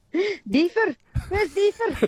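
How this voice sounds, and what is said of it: Mock Scottish accent calling dog. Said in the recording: “my mum used to call it in a Scottish accent”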